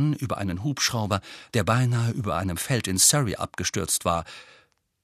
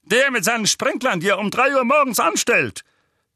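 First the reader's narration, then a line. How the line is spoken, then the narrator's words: Barked. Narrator (German): bellte Onkel Vernon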